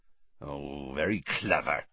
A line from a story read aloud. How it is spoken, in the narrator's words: growled Hagrid